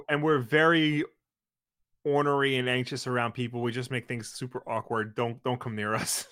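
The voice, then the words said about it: Long Island accent. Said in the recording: “It's the Long Island uh, accent. That's what yeah. it is. Or the Jew accent, but we're not Jewish. No, we're just Long Island.”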